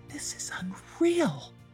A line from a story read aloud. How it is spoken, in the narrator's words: he whispered to himself